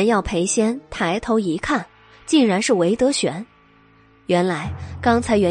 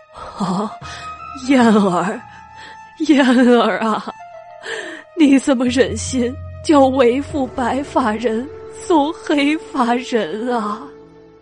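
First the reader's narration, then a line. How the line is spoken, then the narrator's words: Grief-stricken wailing. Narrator (Chinese): 一路悲哭道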